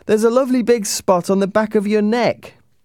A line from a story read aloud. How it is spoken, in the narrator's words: one of the neighbours shouted from the street